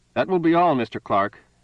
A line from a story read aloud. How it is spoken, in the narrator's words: said, too loudly